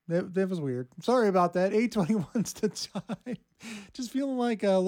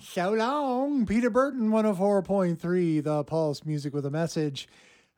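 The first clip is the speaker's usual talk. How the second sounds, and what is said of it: Strange goofy little voice. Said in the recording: “doing that strange little voice”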